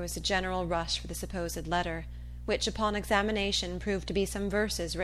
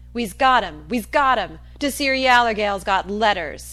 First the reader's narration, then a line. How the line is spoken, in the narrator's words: a chorus of voices shouting